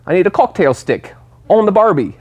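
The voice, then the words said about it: Bad mixed British-Australian accent. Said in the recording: “I'm terrible at them ... British and like Australian just get cooked together”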